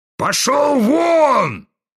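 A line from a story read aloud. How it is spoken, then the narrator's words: Furious shaking bark. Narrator (Russian): гаркнул вдруг посиневший и затрясшийся генерал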